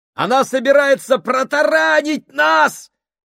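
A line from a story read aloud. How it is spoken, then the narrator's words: Shout. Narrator (Russian): крикнул Гослинг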